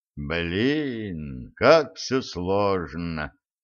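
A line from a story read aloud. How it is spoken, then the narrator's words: Quiet sigh. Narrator (Russian): тихонько вздохнул Федя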